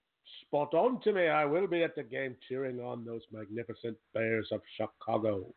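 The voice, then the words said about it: Imitated voice, accent slipping away. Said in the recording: “Ringo lost his accent there almost entirely.”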